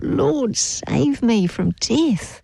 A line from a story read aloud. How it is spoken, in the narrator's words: as he began to sink, he cried out